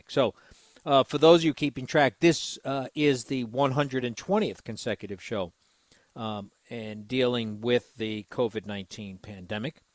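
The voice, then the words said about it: Congested, slightly raspy voice. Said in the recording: “I'm a little bit congested today. My voice has changed. ... a little bit of a raspy throat or a little bit of congestion”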